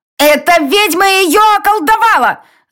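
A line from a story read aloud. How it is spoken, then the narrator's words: Woman screaming. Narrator (Russian): закричала женщина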